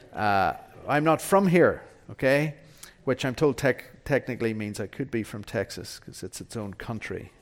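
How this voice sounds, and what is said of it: Non-American foreign accent. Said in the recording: “as you can tell from my accent, I'm not from around here”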